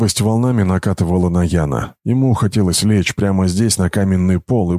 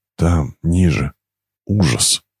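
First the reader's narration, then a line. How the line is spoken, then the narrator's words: Miner whispering. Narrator (Russian): прошептал один из шахтеров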